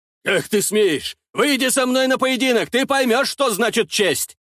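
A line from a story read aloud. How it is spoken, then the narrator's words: Roar. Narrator (Russian): взревел Норман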